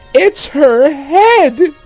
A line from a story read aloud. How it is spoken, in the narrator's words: He cried